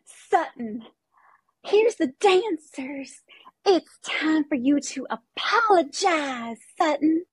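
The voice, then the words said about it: Imitates another person's voice. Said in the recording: “So should I do Kyle impersonating Sutton, impersonating Erica?”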